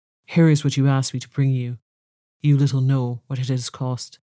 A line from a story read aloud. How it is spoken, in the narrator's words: only saying sadly to Beauty